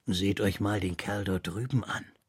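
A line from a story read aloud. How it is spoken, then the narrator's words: Quiet. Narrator (German): sagte Rosser leise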